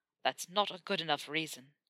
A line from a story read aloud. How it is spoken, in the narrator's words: Malfoy growled